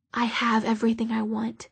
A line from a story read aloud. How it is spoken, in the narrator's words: she whispered